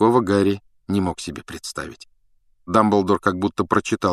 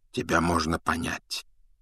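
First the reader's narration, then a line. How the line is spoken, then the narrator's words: Quiet. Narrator (Russian): тихо проговорил Дамблдор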